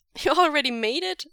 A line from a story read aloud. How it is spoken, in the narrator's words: Wei Ying laughs